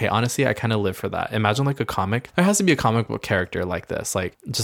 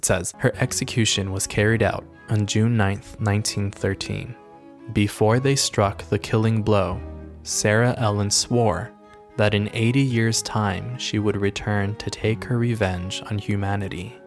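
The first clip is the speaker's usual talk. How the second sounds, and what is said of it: Spooky scary storytelling voice. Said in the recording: “let me go back into the scary voice.”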